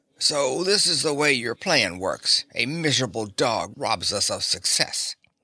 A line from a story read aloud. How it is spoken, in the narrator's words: King who was even more frightened than his queen, had got his breath and could speak, he said raspingly